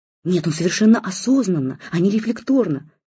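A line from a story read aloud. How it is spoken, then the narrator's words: Excited rapid chatter. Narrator (Russian): тараторил в радостном запале Александр Маркович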